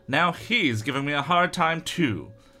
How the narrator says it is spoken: Ross exclaims

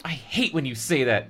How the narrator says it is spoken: Evan exclaimed, like an infant, angrily

